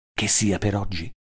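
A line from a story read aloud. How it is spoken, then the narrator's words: Low-voiced question. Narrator (Italian): le domandai a voce bassa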